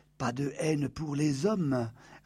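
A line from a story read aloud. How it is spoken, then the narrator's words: Whispered in Arabic. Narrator (French): a soufflé Iman en arabe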